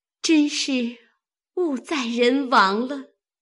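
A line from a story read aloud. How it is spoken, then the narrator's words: Sorrowful sigh. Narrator (Chinese): 秋文见这条红裤是晴雯针线，因叹道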